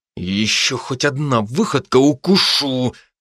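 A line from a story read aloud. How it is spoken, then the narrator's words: Growled. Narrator (Russian): прорычал я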